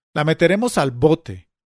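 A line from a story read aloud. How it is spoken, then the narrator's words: Shouted. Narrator (Spanish): gritó Camargo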